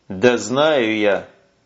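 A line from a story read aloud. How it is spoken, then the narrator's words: Muffled dull reply. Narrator (Russian): глухо ответил сержант Куницын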